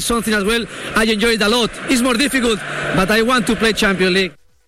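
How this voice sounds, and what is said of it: Spanish accent, V sounds like B. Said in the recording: “That's his accent. He's Spanish. They'll pronounce the V as B.”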